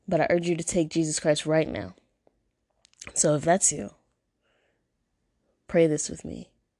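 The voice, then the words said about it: Congested, allergy-affected voice. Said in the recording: “I am sorry for my voice and the way I'm sounding right now. Man, my allergies is really acting up.”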